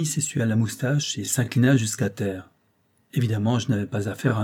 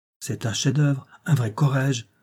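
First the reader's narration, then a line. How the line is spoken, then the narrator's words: Exclaiming. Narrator (French): s'écria mon interlocuteur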